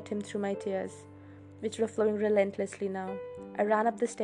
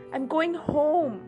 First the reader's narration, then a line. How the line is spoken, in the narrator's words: I shouted, my voice breaking in the perfect spot